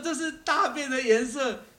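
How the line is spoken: Shouting. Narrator (Chinese): 他们大喊说

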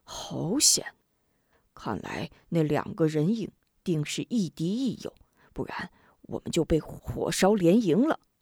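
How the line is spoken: Sighing. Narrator (Chinese): 李章叹道

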